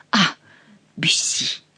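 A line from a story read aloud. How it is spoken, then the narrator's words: Through gritted teeth. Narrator (Russian): повторил герцог сквозь зубы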